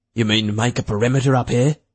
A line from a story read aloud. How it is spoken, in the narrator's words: Thatcher asked in a low, nervous voice